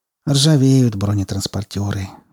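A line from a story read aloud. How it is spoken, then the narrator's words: Sighing. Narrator (Russian): вздохнул Скворцов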